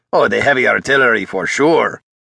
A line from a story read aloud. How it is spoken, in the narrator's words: Jake rasped in an exaggerated accent